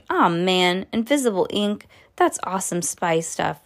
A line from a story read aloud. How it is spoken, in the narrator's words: Lucy laughed